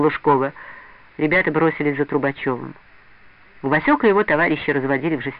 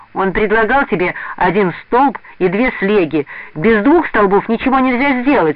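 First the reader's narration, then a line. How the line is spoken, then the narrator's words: Angry shout. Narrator (Russian): сердито крикнул Леня Белкин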